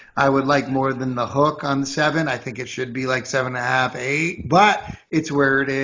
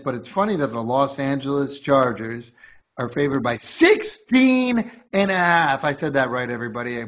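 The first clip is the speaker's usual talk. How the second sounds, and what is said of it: Voice cracks mid-sentence. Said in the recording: “My voice cracked a little bit”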